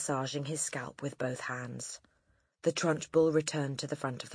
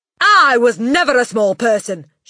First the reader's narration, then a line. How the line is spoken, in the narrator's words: she snapped